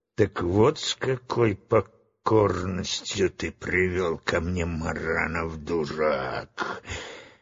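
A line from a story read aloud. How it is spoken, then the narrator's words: Spiteful hiss. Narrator (Russian): злобно прошипела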